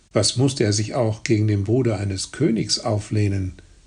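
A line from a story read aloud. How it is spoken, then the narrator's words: Plain. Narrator (German): sagte Arnulf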